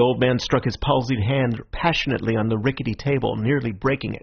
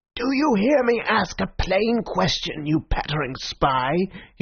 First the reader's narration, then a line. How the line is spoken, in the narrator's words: he shrieked in a high, crazy voice